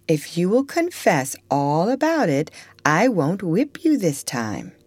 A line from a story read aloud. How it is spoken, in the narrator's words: said Miss Ophelia kindly